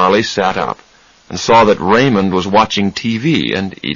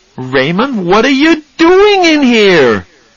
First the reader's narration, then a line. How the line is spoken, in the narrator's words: he shouted